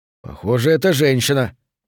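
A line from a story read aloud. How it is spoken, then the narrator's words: Muttered. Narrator (Russian): пробормотал Торрес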